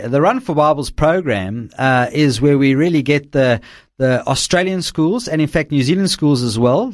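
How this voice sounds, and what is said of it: South African accent. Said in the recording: “with your accent, we'll know why you're so friendly with the South Africans”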